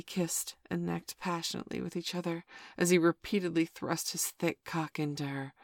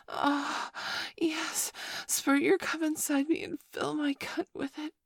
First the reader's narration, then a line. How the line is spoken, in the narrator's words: she moaned